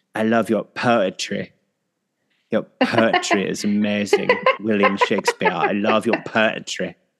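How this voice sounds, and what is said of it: Euro accent like Dieter from SNL. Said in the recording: “why did a lot of your accents sound like Dieter from SNL? ... I just have a great Euro trash act.”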